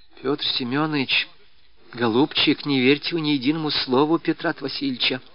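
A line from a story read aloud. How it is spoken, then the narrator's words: Whisper. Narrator (Russian): шепнула она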